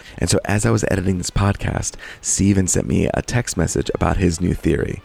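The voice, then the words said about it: Whispering. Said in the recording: “I'm whispering not to wake anyone else up”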